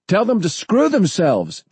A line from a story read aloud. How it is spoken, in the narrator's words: John shouted